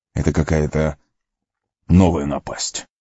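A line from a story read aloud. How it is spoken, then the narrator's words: Grumbled. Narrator (Russian): проворчал он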